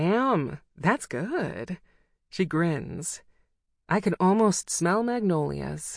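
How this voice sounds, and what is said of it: Usual voice. Nothing is said of it.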